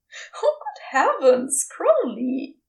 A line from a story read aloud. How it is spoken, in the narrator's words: he chuckled